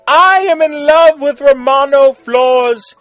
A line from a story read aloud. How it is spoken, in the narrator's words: he squealed